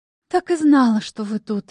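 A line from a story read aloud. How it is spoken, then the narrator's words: Relieved sigh. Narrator (Russian): облегченно вздохнула она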